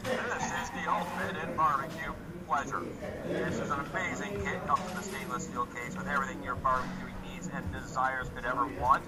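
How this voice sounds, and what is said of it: Announcer-style radio voice. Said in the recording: “I have a radio voice. I can attempt it.”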